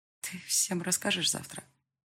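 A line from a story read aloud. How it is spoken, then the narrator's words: Dejected question. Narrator (Russian): спросила я упавшим голосом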